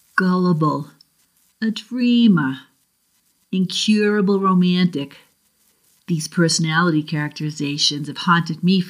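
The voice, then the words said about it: Boston New England accent. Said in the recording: “my Boston accent that I'll read it with ... I'm from the South Shore of Boston, so I'll see if I can regain some of my New England accent”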